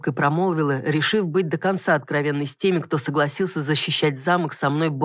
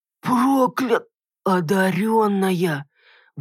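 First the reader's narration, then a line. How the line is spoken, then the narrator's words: Warriors' collective gasp. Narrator (Russian): выдохнули воины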